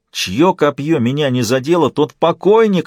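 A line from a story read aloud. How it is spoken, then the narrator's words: Yelling. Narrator (Russian): орал он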